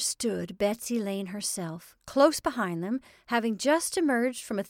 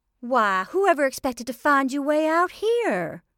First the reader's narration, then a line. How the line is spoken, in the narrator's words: exclaimed a brisk and cheerful voice